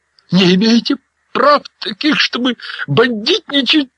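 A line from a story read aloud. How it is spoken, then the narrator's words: Shrill lisping whisper. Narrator (Russian): визгливо прошепетывал стукач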